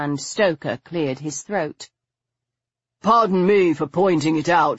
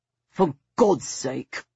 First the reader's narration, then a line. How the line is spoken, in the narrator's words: Stoker muttered